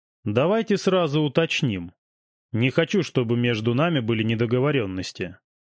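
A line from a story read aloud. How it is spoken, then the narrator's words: Calm reply. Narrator (Russian): спокойно ответил Меньшиков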